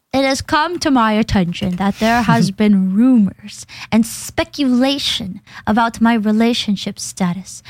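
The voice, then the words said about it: Imitates another person's voice. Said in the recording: “read this tweet in your best Matara impression ... In my impression of you”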